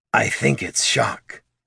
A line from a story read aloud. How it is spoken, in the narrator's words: Thane muttered